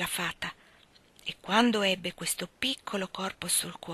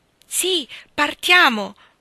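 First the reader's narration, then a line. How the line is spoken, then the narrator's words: Fairy shouting. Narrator (Italian): gridò la fata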